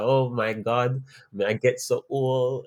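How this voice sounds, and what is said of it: Poor put-on Jamaican accent. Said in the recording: “that's my dead attempt at doing a Jamaican accent. I genuinely cannot.”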